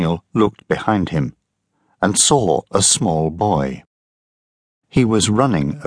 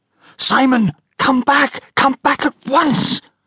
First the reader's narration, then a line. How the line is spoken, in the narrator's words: a woman screamed